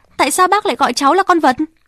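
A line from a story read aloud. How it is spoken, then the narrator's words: Shouting over machine noise. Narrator (Vietnamese): Rosalie hét, vì lúc ấy có tiếng ồn của cỗ máy đã bắt đầu hoạt động lại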